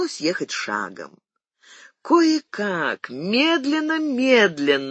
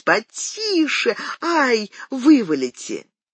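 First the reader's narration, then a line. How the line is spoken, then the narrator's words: Frightened woman shrieking. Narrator (Russian): перепуганная госпожа Китано-Ката не переставала вопить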